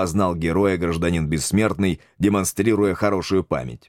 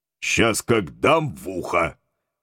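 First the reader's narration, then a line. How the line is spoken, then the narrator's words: Menacing, threatening. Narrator (Russian): грозно насупился Митяй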